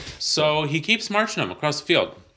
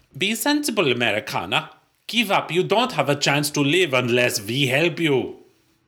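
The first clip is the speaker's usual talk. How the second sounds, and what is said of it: Put-on German accent. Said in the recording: “We're going to practice our German accents.”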